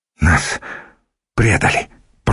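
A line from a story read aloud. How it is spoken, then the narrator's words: Muttered from behind. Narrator (Russian): пробормотал кто-то за спиной Цимисхия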